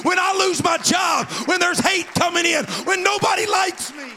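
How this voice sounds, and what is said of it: Screaming, intense preaching. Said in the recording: “Why are you screaming? Why are you getting all crazy about this?”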